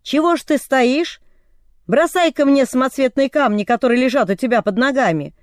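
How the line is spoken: Shouting from below. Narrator (Russian): бай снизу и закричал

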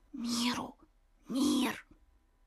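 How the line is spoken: Whispered. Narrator (Russian): ребята начали шептать Коле

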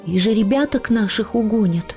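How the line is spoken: Younger son's plaintive question. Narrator (Russian): жалобно спросил младший сын Петр

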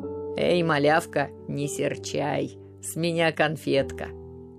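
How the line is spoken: Conciliatory grumble. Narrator (Russian): примирительно проворчал

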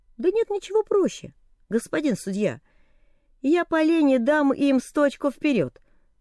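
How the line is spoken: Calm. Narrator (Russian): ответил спокойно Тек

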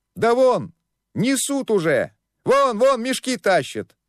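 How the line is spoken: Distant yelling. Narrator (Russian): завопили на другом конце торга

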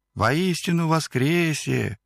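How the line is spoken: Thin ringing voice. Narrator (Russian): тоненьким голоском звенит Екатерина, беглянка с Украины

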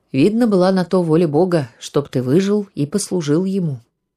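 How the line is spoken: Calm. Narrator (Russian): князь спокойно сказал

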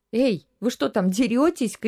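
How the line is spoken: Mother's shout. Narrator (Russian): крикнула мама

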